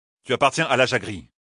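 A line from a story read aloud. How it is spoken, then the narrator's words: Curt retort. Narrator (French): répliqua sèchement Rand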